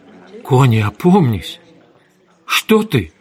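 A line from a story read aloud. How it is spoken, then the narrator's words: Shocked voice. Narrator (Russian): Кей потрясенным голосом сказала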